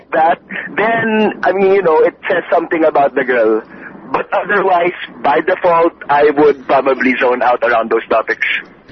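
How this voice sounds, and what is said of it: Regional Metro Manila accent. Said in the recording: “You live either in Parañaque or Alabang ... I can hear it in your accent ... You can hear what city he grew up in”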